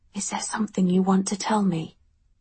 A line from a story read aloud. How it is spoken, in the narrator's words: she asked quietly